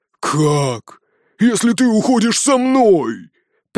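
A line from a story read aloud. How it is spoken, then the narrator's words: Roared. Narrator (Russian): прямо-таки взревел Броуди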